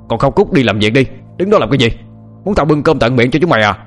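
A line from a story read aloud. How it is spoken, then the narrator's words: Old man shouting. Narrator (Vietnamese): lão Hoang lại quát lên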